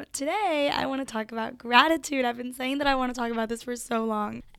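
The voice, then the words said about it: Congested, sore-throated voice. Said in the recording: “sorry about my voice. ... my nose is stuffy and my throat is sore and I feel like I might sound weird”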